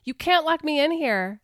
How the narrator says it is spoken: she yelled through the wood

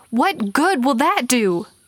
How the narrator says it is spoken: he yelled

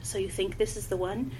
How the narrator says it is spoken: He spoke quietly, his refined accent jarringly out of place in this pit of lowborn murderers and thieves

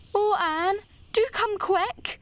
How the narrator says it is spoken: implored Diana nervously

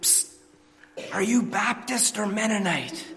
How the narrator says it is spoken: whispering to the guy next to you

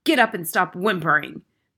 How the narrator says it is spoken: the Trunchbull barked

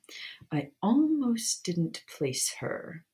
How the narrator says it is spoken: Snape drawled

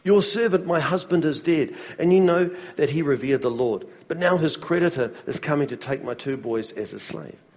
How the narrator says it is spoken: a wife of a man from the company of the prophets cried out to Elisha

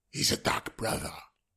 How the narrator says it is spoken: hissed Pilar Nasi

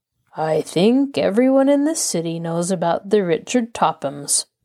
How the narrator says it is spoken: the floor manager returned wearily

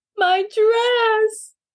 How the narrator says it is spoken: wailed Maisie

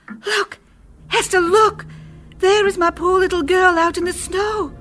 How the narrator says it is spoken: she cried out

